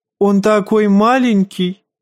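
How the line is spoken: Giggle. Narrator (Russian): хихикнул лорд Орлиного гнезда

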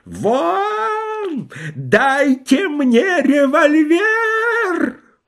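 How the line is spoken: Wild agonized yell. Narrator (Russian): Полковник Гербих заорал диким голосом, как орет человек, которого медленно поджаривают на вертеле

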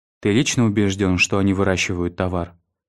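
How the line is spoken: Plain. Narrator (Russian): спросила Донна

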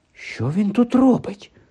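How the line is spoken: Whisper. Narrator (Ukrainian): прошепотів Гаррі

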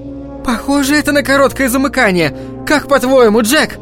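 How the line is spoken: Shouting. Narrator (Russian): крикнула ему Венди

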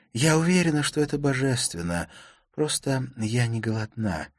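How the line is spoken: Sighing. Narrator (Russian): вздохнула она

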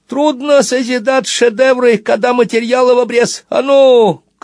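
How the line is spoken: Shouting. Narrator (Russian): крикнул он комендантше

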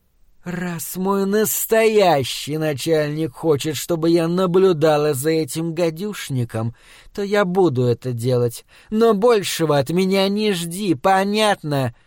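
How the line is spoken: Irritated hiss. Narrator (Russian): Ангелина раздраженно прошипела

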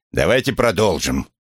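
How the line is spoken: Barked. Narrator (Russian): рявкнул Крэмер

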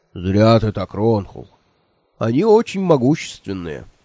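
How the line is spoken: Stern. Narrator (Russian): строго сказал Мессен

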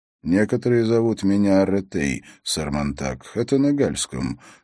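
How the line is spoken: Calm. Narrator (Russian): спокойно добавил он

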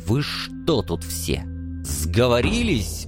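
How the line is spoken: Furious spitting hiss. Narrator (Russian): Брызжа слюной, поэт прошипел едва сдерживаясь

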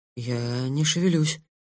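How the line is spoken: Quiet. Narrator (Russian): тихо ответил я

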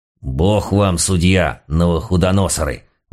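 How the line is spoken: Desperate moan. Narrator (Russian): простонал отчаянный дьяк

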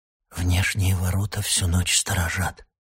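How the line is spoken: Whisper in ear. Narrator (Russian): прошептал ему на ухо Яхан

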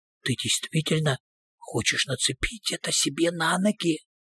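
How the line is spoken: Whisper. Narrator (Russian): Люсьен прошептал

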